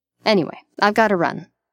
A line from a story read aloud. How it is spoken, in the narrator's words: Leto says